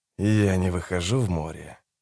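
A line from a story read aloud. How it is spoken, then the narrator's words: Through gritted teeth. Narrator (Russian): процедил сквозь зубы капитан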